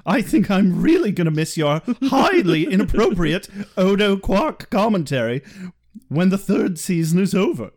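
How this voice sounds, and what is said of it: Silly funny character voice. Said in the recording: “silly voice ... pretty much the chocolate hurricane voice ... in a funny voice”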